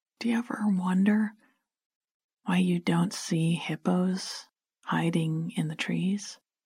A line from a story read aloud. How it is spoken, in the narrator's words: sighed